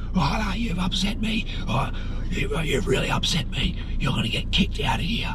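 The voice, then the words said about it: Raspy imitated voice. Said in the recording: “old raspy boy Sue”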